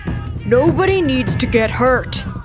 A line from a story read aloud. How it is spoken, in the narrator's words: the lead man bellowed